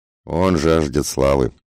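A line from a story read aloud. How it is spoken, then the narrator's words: Good-natured, mocking. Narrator (Russian): сказал Лючо добродушно и одновременно насмешливо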